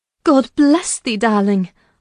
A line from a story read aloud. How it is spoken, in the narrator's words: I cried, forgetting instantaneously my foolish fears